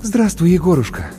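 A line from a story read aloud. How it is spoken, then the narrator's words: Relieved exhale. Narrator (Russian): облегченно выдохнула Маша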